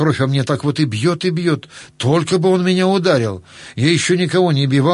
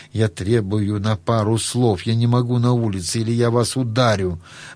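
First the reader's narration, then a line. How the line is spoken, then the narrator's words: Quiet, trembling. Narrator (Russian): он мне уже тихо, но с дрожью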